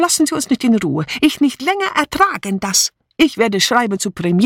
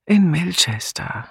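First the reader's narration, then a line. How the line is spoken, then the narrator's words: Tired answer. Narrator (German): antwortete Julia müde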